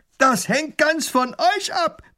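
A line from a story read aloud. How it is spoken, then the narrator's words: Robber roaring. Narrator (German): brüllt der Räuber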